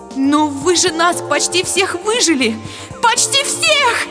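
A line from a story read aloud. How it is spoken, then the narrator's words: Shrieked aloud. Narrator (Russian): завизжала я вслух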